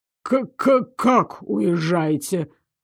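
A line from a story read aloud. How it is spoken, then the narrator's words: Stuttering in surprise. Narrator (Russian): От удивления Айрон даже начал заикаться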